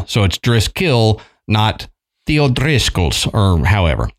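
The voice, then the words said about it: Bad put-on accent. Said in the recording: “That was a bad accent.”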